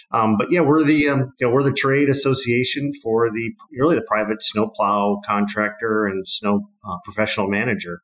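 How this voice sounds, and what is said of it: Wisconsin accent. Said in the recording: “my my Wisconsin-based accent”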